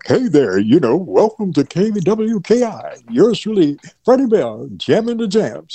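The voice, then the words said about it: Exaggerated DJ announcer radio voice. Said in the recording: “we eventually called it puking ... we kind of used the radio voice”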